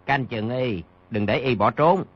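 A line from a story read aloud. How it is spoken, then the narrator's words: Lowered voice. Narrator (Vietnamese): Bèn hạ giọng, nói với đám nha dịch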